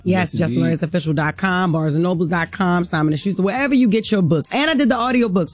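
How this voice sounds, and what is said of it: Baltimore accent. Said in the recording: “this best Baltimore accent”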